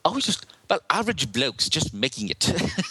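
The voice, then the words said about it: Bad put-on New Zealand accent. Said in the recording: “she's from New Zealand ... excuse my terrible. ... That's the worst accent ever.”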